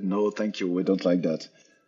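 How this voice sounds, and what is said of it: Bad put-on German accent. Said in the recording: “did a very bad impression of a German store owner”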